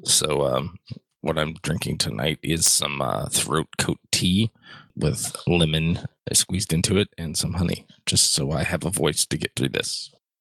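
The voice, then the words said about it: Hoarse, fading voice. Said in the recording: “I'm in the process of losing my voice because of a cold”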